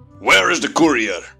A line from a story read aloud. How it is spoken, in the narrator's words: Consul Combal snapped